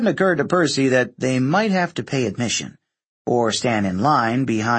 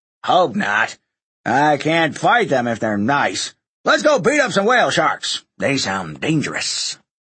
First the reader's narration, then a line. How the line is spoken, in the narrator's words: Hedge grunted